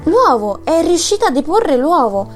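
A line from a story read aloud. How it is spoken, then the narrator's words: Exclamation. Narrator (Italian): esclamò Zorba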